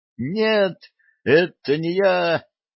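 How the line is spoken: Terrified shriek. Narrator (Russian): взвизгнула в ужасе Оля

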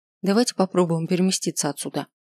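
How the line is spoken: Plain. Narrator (Russian): ответила Эри

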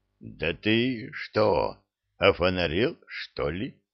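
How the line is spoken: Eerily quiet tense question. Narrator (Russian): неправдоподобно тихо спросил мой враг

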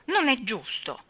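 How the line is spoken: Grumbling, stamping feet. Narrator (Italian): brontolò pestando i piedi sul linoleum

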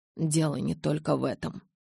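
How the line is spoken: Muttered. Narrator (Russian): пробормотал

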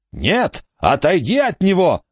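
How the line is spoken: Creature screaming. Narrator (Russian): закричало существо внутри бака Эджерса

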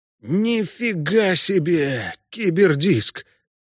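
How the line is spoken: Stunned gasp. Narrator (Russian): ошеломленно выдохнул Ламберт

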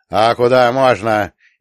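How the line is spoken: Sudden rude yell. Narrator (Russian): неожиданно грубо заорала Гребешкова

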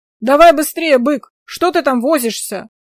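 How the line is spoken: Shout. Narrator (Russian): Второй крикнул

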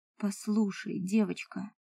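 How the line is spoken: Very quiet female voice. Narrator (Russian): очень тихо заговорила эльфийка

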